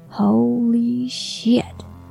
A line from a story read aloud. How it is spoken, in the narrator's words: Leo gasped